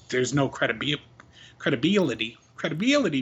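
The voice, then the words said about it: Made-up regional Carolina-style accent. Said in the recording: “lean into that word, huh? Oh, yeah, a little credibility. ... I'm not even sure where that fucking accent is from ... I invented a place and gave it its own accent. ... That was West Carolina.”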